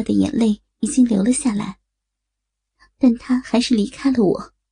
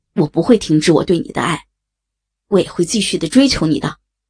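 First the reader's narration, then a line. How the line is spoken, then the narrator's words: Loud. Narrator (Chinese): 我大声地说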